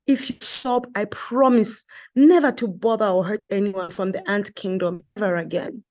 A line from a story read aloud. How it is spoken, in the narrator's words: Masie begged